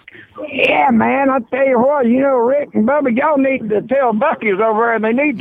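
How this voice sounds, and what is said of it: Fake put-on voice. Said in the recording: “it was kind of a fake voice”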